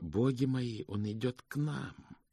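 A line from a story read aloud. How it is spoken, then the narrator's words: Mutter. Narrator (Russian): Госпожа ласка пробормотала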